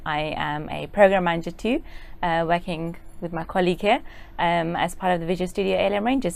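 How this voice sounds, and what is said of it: British accent. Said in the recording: “Originally from the UK. ... the accent is pretty.”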